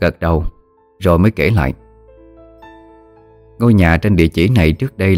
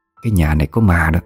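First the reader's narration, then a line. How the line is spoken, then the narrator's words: Whisper in the ear. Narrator (Vietnamese): Người chủ quán thì thầm vào tai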